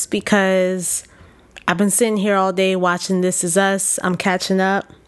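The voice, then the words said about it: Slightly hoarse voice. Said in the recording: “My voice might be a little bit hoarse”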